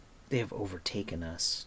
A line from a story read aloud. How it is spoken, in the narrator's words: Terran said in a flat voice